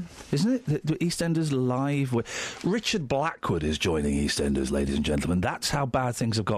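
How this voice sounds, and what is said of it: Usual voice. Nothing is said of it.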